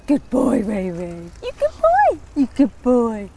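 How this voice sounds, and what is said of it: Silly voice for talking to a dog. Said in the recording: “do you have a dog voice? ... Shall I show you mine?”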